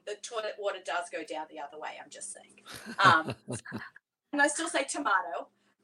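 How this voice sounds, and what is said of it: Australian accent. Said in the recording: “I got to grow up as an Aussie ... someone commenting on my accent ... the accent definitely has been a leg up”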